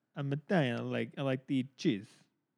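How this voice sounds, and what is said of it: Exaggerated Italian accent. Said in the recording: “I sound like I'm Italian. Especially when I say the word Italian.”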